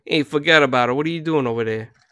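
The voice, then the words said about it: Italian American Brooklyn accent. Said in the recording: “a broken English, like Italian American Brooklyn English accent”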